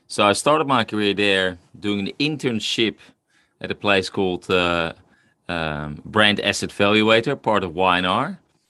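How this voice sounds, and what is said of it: Dutch accent. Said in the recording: “The funny accent you're going to listen to is originally from Holland.”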